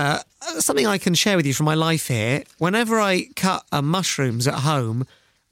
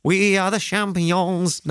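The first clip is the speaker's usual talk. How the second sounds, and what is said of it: Put-on French accent while singing. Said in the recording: “sing this song in a French accent ... I think that's a very good French accent.”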